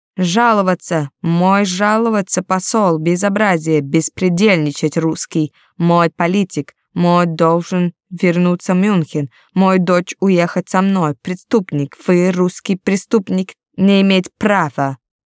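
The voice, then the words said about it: Shouting in broken Russian. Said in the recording (Russian): “Он орал на ломаном русском.”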